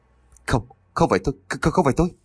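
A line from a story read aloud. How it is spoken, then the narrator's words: Terrified stammering. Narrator (Vietnamese): run bắn người lên, miệng lắp bắp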